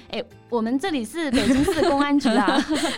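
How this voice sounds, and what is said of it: Put-on southern Chinese accent. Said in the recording (Chinese): “那种南方口音”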